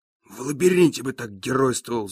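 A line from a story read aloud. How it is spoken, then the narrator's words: Angry. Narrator (Russian): зло говорит падла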